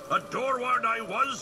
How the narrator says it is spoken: he shouted

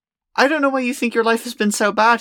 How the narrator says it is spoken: he said

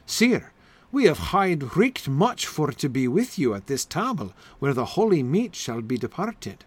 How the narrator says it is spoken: sighed unto Sir Galahad

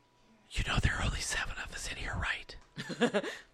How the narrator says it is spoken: He whispers in my ear

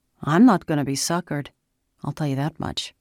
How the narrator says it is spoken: Dante grumbled

